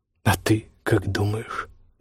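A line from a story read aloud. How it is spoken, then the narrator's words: Mumbling. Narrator (Russian): бормочет Вёйкерасу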